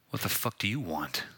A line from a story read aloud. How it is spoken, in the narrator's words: I growled into the cell phone